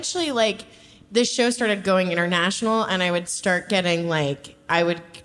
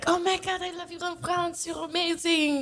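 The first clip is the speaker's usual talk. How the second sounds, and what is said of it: Put-on foreign accent. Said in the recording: “That was a really good accent.”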